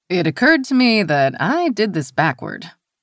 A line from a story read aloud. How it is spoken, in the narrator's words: the stranger said, an undercurrent of laughter in her tone